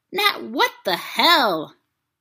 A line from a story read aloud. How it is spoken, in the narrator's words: barked